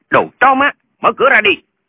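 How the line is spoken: Harsh shout. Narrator (Vietnamese): Có người quát

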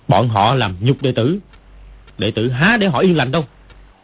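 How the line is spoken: Angry outburst. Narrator (Vietnamese): Dương Quá đứng bật dậy tức giận nói

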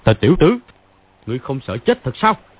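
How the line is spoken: Hall-shaking shout. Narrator (Vietnamese): làm chấn động cái đại sảnh quát

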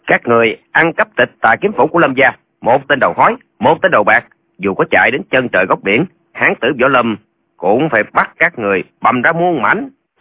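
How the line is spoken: Shouting. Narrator (Vietnamese): Lệnh Hồ Xuân quát lên

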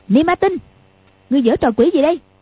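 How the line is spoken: Shouting. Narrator (Vietnamese): quát lên

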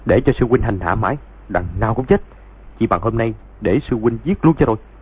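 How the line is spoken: Harsh, strained voice. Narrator (Vietnamese): Doãn Chí Bình gằn giọng

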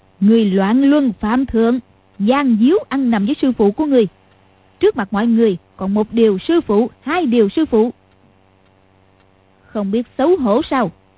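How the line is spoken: Smiling. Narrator (Vietnamese): Lý Mạc Sầu mỉm cười nói

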